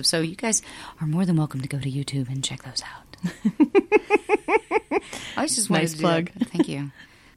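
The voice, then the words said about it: Low, sleepy radio DJ voice. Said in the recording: “testing out her DJ voice ... that nice low-talking, like, sleepy time DJ sound”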